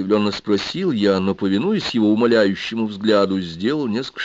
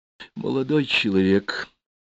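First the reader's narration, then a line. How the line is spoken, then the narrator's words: Whispered. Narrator (Russian): зашептал директор ТМ-6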